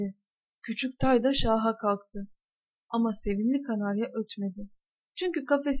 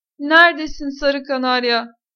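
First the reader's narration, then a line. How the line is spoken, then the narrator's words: Shouting. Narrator (Turkish): diye bağırdı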